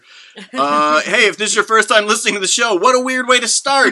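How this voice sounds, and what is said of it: Chicago accent. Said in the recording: “I feel like my Chicago accent is really coming out on this show.”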